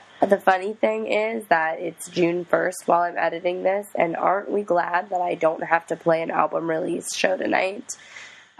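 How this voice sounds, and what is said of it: Hoarse, mostly lost voice. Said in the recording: “I am so sorry for how my voice sounds right now... I'm sick and have mostly lost my voice”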